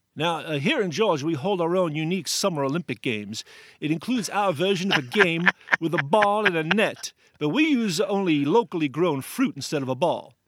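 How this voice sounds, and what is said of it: Put-on Georgia Southern accent. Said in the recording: “What is that voice? ... that's my Georgia accent.”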